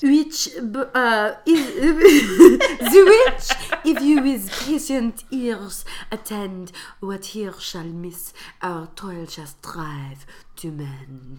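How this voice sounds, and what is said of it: Put-on French accent. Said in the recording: “With a French accent.”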